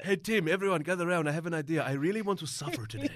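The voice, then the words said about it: Deliberately bad put-on accent. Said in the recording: “Terrible accent there.”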